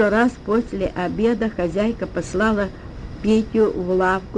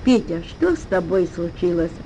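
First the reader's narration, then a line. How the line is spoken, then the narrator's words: Tender question. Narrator (Russian): ласково спросила она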